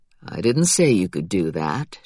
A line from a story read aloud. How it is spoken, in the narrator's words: Jack said in a teasing tone